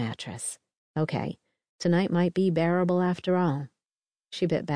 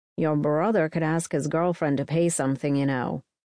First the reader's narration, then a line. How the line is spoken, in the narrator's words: Avery growled